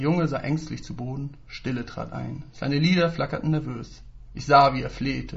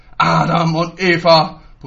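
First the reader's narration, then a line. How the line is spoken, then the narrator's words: Bellowing. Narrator (German): brüllte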